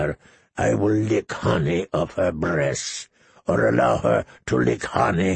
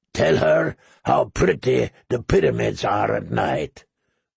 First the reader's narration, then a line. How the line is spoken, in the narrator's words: the slaver growled